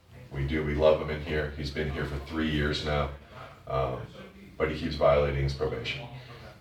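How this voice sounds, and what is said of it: Choked-up, emotional voice. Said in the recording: “sorry, I'm getting choked up talking about it”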